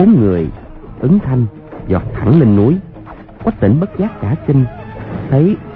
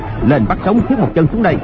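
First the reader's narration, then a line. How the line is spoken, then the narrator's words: Barked command. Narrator (Vietnamese): Hoàng Nhan Hồng Liệt quát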